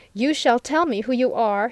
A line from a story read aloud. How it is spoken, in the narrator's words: he cried